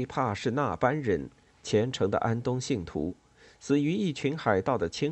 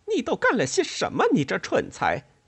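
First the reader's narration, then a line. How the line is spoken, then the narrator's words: Shrill scream. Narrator (Chinese): 瑞秋尖声叫道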